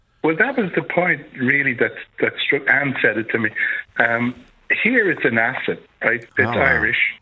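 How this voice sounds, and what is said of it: Dublin working-class Irish accent. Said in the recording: “the Dublin working class accent ... this accent”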